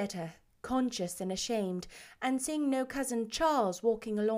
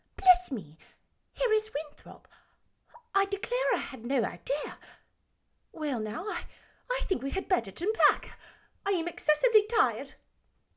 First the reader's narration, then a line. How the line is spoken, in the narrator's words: Neri exclaimed